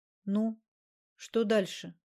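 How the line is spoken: Plain. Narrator (Russian): спросила Альбина

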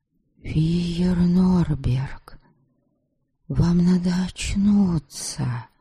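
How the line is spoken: Echoing whisper. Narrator (Russian): прошептала я, многократным эхом пронеслись

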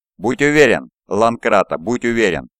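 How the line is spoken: Laughing while speaking. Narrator (Russian): произнес Коракс, смеясь вместе с остальными над убогой шуткой

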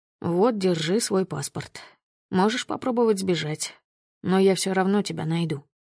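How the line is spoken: Smirking. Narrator (Russian): хмыкнул Глеб

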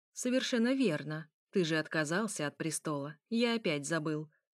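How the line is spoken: Plain. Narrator (Russian): сказал

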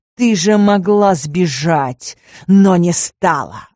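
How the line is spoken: Growled. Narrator (Russian): рыкнул

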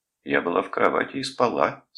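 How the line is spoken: Calm answer. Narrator (Russian): спокойно ответила Кейт

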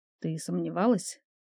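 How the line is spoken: Quiet. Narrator (Russian): тихо проговорила

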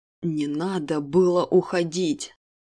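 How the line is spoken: Restrained growl, man. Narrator (Russian): Едва сдерживаясь, прорычал мужчина

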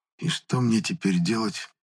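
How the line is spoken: Silent mouthed whisper. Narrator (Russian): одними губами прошептал я

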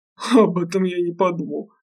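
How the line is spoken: Chuckling. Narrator (Russian): хохотнул

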